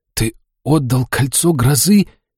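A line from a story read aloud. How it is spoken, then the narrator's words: Hoarse, panicked wheeze. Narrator (Russian): Пытаясь успокоить паническую атаку, просипел я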